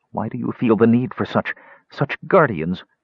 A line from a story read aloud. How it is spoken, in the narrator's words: Her voice quavered in spite of herself